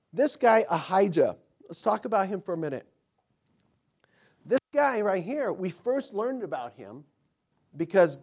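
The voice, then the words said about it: Strained, troubled voice. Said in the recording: “my voice is, I'm having problems with it. I feel okay, just my voice has just got some issues.”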